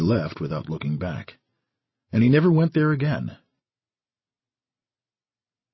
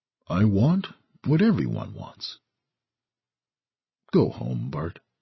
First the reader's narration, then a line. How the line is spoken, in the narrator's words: Ordner answered quietly